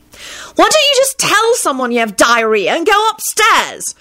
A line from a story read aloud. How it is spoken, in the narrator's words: she screeched angrily